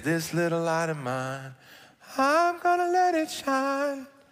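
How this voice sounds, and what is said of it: Sung in rising falsetto. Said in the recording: “See that falsetto? I went up. I would almost call that a key change”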